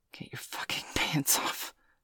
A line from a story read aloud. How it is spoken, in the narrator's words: he gasped